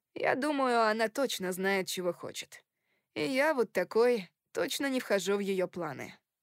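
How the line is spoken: Sighing. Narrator (Russian): вздохнул Кори

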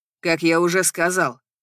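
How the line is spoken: Rather rough tone. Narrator (Russian): произносит довольно грубым тоном Ченнинг

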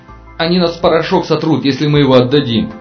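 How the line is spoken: Shouting. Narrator (Russian): кричал Аршинов

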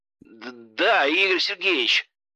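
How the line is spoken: Pained voice. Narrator (Russian): болезненным голосом ответил тот

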